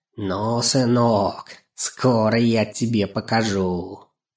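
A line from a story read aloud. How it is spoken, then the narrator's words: Grumbling old woman, spiteful sneering. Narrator (Russian): она то ворчала, как старуха, то злобно усмехалась, приговаривая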